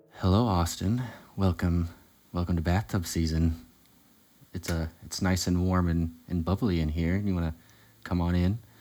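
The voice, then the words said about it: Put-on sexy radio-announcer voice. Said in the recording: “my sexy voice is accidentally my NPR voice”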